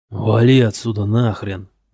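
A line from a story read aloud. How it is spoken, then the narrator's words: Growling. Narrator (Russian): прорычал он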